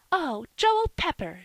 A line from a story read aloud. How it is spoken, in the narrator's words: she cried